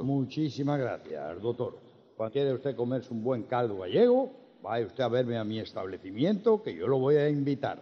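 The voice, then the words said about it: Galician Spanish accent. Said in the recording (Spanish): “poner voz de gallego”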